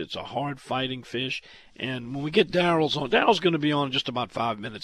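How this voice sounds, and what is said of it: Hoarse, strained voice. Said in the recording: “my laryngitis”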